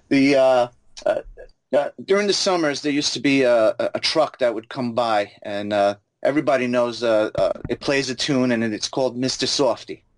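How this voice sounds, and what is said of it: Slight Bronx accent. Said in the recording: “I grew up in the Bronx, so I don't know if you could tell by my accent. ... A little.”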